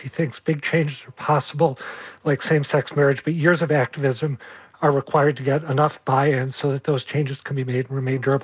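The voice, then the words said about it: Hoarse, strained voice. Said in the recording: “I've completely lost my voice.”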